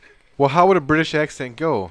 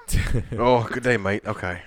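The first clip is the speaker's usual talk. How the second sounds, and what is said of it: Put-on Australian accent, sounds Irish. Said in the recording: “Give me a Paul Hogan accent. ... read with the Paul Hogan accent. ... It sounds Irish.”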